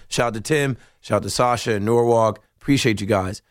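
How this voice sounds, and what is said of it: Strained, worn-out voice. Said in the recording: “my voice is coming back ... once we get in the 9 o'clock hour, it's going to come back ... I go to stadium. I yell. I scream ... I was yelling.”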